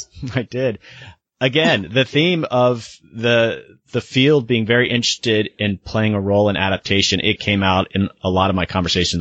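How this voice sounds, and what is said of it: Slightly cracky, tired voice. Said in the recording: “I'm a little bit tired. My voice is a little bit cracky from all these interviews”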